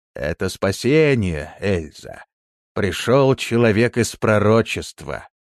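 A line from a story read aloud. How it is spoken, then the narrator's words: Plain. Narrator (Russian): ответил Левий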